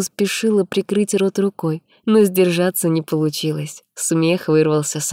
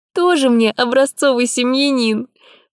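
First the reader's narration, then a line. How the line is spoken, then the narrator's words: Repeated after laughing. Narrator (Russian): Повторила, отсмеявшись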